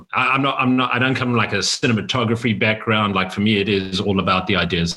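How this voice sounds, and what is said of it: South African accent. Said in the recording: “a Akron, Ohio accent I hear there ... fresh from Johannesburg, South Africa”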